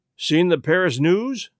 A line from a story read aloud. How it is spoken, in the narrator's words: asked Lestrade